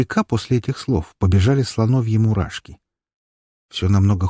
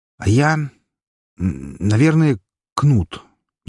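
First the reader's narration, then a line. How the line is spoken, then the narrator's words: Uncertain. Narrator (Russian): неуверенно сказал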